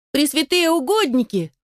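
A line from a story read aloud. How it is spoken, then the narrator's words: Squeaky child-like voice. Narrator (Russian): пропищал он голоском малыша Игоря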